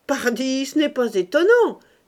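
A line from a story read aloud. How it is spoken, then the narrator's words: Shout. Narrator (French): cria Octave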